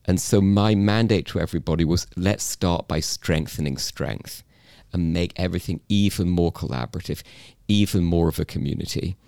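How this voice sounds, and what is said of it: British English accent. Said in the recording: “as you can tell, came from England. This is a genuine British ... accent”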